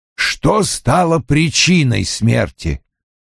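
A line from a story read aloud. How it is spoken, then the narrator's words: Grumbling. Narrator (Russian): проворчал Вульф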